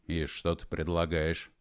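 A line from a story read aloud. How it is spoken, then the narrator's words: Grim smirk. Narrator (Russian): Егор Алексеевич мрачно усмехнулся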